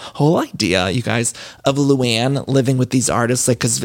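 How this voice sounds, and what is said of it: Usual voice. Nothing is said of it.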